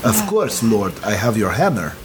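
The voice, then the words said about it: Put-on Russian accent. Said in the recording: “Do I still have to do a Russian accent? ... Yep.”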